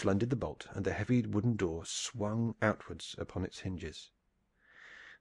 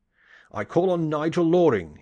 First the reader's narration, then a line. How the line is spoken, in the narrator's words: he cried